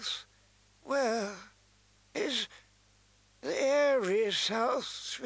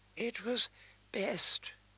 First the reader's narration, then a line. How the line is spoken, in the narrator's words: her father whispered